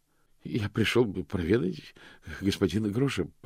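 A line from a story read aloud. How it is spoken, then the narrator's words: Bleating. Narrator (Russian): проблеял мокрец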